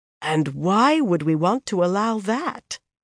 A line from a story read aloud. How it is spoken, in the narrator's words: Anaya said, finally, in a dangerous voice